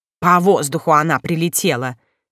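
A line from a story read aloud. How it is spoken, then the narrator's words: Exclamation. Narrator (Russian): воскликнул Чука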